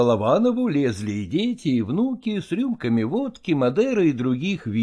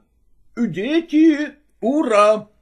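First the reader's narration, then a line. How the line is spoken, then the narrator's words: Child shouting. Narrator (Russian): крикнул сын Анисим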